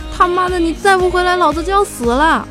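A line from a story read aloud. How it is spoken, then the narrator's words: Anxious shouting. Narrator (Chinese): 乌龟就急了，在屋子里大喊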